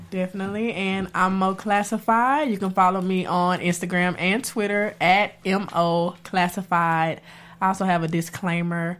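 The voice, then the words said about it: Stuffy, congested, deep voice. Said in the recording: “I'm a little sick, so I'm a little stuffy ... channeling my inner Beyonce with my deep voice”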